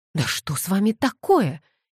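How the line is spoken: Bewildered exclamation. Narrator (Russian): ничего не понимая, воскликнула Кэтлин

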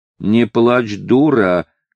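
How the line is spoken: Shouting from a roof. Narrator (Russian): кричал он с крыши

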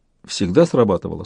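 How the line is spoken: Almost calm question. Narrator (Russian): спросила Яна почти спокойно

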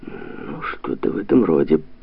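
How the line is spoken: Muttered. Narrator (Russian): пробормотал Георгий

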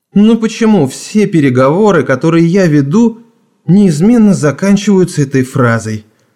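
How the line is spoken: Sighing. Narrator (Russian): вздохнул молодой человек

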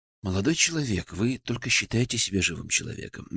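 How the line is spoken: Soft. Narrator (Russian): мягко сказал я

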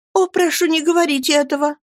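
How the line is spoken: Pleading. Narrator (Russian): взмолилась Дора

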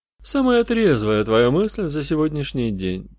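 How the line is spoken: Grumble. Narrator (Russian): буркнул грешник

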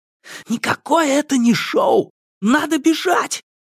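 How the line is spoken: Loud frightened whisper. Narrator (Russian): громко прошептал ему на ухо испуганный Иван Дадонович

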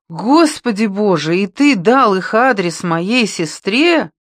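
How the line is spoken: Exclaimed. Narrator (Russian): воскликнула Пьета

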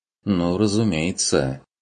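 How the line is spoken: Sarcastic agreement. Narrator (Russian): согласилась Адельхайда язвительно

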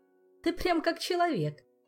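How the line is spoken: Ringing laughter. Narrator (Russian): звонко рассмеялся эльф

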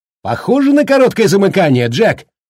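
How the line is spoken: Shouting. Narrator (Russian): кричала

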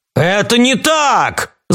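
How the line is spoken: Shouting captain. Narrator (Russian): закричал капитан

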